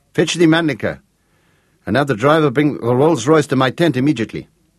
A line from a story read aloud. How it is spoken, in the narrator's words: snapped the Count